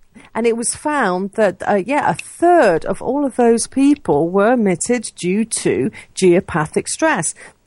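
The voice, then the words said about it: Speaks with a noticeable accent. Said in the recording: “that's my accent”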